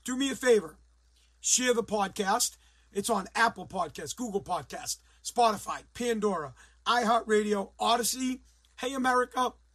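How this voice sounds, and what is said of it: Hoarse, strained voice. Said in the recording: “my voice is a little bit shot, so I can't be the typical yelling and screaming”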